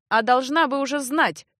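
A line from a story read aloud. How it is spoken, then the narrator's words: Harsh interruption. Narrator (Russian): жестко оборвал комедию Эгрис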